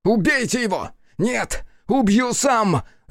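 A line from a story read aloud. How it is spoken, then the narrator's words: Furious shouting. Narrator (Russian): Закричал Хицу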